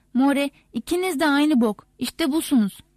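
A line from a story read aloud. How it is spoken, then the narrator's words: Shouted. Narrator (Turkish): diye bağırdı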